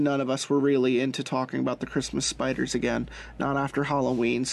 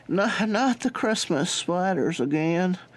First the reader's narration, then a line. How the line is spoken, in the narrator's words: moaned Greg